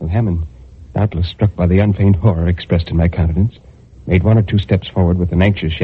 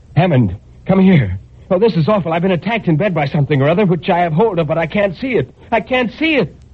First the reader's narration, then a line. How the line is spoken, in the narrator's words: I shouted to him